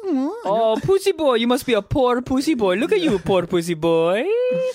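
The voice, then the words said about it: Bad put-on Italian accent. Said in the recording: “pretty close to Italian ... We both suck at that accent”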